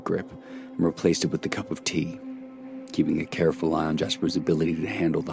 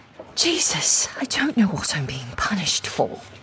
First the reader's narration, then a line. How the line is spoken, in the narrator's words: Frey exclaimed between heavy breaths